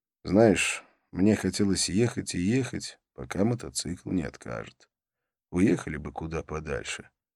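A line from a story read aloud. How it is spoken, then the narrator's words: Quiet voice. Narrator (Russian): я негромко сказал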